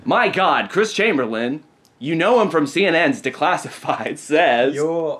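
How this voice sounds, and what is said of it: Mock news announcer voice. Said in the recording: “Did you practice your ... Announcer voice?”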